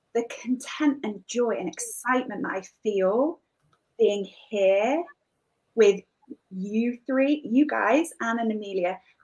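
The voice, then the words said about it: Northern English accent. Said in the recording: “the real British accent here. I'm in the north of England, the northwest.”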